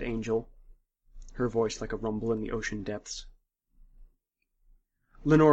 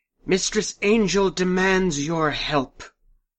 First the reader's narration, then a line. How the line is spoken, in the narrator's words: Lenora shouted